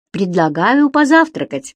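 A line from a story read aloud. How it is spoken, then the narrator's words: Cheerful. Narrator (Russian): весело сказал Стоун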